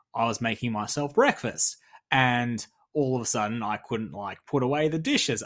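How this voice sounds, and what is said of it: Poor put-on Australian accent. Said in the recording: “I'm doing a terrible Australian accent.”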